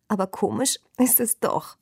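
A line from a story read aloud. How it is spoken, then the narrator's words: Laughing again. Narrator (German): sagte und lachte von Neuem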